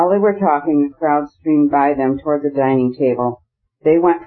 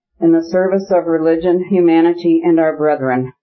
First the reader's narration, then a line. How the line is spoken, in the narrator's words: the gentleman said, his voice growing louder and louder